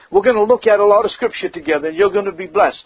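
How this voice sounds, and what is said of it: Mixed Oklahoma and Massachusetts accent. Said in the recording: “I get two accents, man. ... I got Oklahoma and Massachusetts.”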